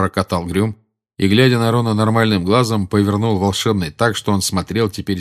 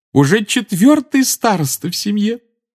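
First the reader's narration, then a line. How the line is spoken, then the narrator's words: Adoring exclamation. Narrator (Russian): с обожанием воскликнула она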